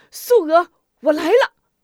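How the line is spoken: Excited loud shout. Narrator (Chinese): 吴敏霞 心中兴奋难以抑制 高声喊道

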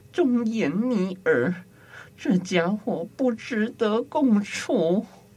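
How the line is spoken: Sighing. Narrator (Chinese): 他仰天叹息说

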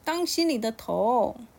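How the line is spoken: Crying out. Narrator (Chinese): 小能叫了一声说

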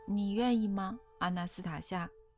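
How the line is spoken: Plain. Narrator (Chinese): 艾伦问

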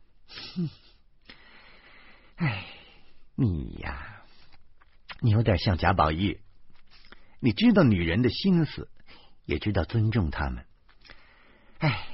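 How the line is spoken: Sighing complaint. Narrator (Chinese): 李爱家悠然叹息一声，抱怨的说

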